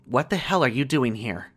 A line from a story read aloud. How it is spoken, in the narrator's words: a woman sharply said from behind me